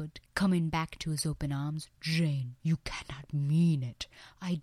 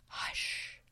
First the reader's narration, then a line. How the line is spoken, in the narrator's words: I whispered